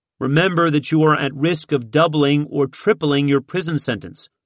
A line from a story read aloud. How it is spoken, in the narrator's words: Johnson said